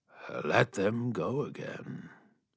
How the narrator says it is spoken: he said calmly

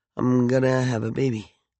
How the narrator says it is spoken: She murmured

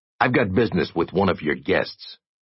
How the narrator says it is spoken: Jay said

